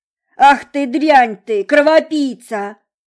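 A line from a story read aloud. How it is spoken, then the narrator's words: Homeless man bellowing. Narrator (Russian): Заорал на нее бомж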